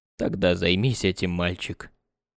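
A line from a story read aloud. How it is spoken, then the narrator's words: Gentle female request. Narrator (Russian): ласково попросила Анук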